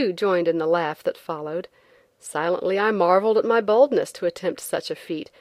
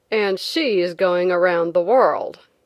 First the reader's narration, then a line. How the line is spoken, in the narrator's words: one man said sneeringly